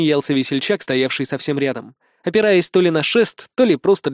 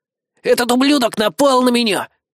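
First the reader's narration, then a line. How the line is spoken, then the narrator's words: Hissing. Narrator (Russian): прошипел Белобрысый Игги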